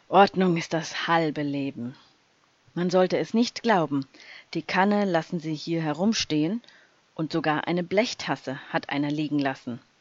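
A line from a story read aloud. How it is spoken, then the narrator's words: Growl. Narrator (German): knurrte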